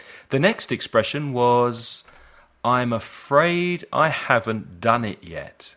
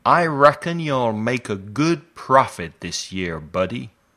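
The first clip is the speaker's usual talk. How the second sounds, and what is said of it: Poor put-on American accent. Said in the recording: “my terrible American accent.”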